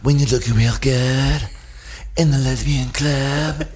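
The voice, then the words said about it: Breathy, sultry sexy voice. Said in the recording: “this is how I talk real sexy when I'm on when I want to sexy on a song ... This is my sexy voice.”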